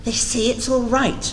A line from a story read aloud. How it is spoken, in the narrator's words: she said